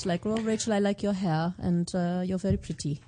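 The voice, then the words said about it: Light German accent. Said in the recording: “It's a very light German accent... very light”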